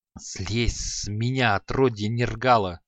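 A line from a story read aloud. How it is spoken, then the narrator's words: Angry hiss. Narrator (Russian): злобно прошипел он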